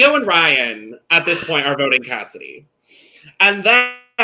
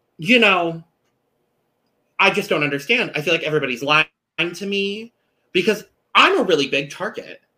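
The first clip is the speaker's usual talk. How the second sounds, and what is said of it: Imitates another person's voice. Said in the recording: “my best Lindsay impersonation”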